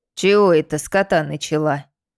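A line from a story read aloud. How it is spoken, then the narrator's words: Displeased grumble. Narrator (Russian): недовольно пробурчала сухоручка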